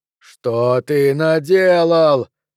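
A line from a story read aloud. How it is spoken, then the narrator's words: Yelled. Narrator (Russian): завопил Андреми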